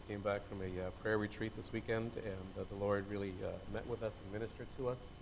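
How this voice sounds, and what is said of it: Hoarse voice. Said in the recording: “If I seem to talk a little hoarse, because we've been we had a weekend.”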